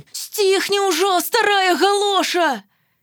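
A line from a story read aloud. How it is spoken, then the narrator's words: Angry shout. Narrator (Belarusian): калі яна вельмі раззлавалася на сваю маму, яна крыкнула ёй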